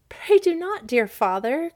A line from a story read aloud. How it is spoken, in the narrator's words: cried